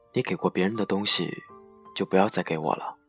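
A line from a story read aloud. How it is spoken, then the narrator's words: Calm, detached. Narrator (Chinese): 淡淡的说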